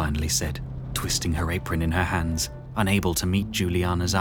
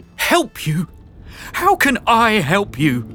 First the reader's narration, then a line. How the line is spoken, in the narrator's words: cried her mother, furious at her daughter for creating such a mess, furious that it brought Sarah face to face with her own cowardice